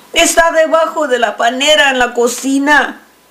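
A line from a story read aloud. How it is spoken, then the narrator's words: Woman shouting. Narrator (Spanish): le gritó la señora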